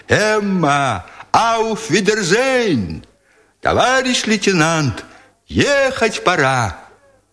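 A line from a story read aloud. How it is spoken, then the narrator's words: Soldiers cheerfully shouting, unsynchronized. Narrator (Russian): Оттуда доносились голоса солдат, которые весело кричали им в разнобой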